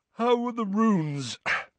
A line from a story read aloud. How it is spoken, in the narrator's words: said Ron, yawning